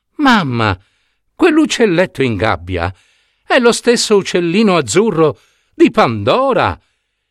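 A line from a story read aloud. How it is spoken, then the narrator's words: Quick exclamation. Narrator (Italian): subito esclamò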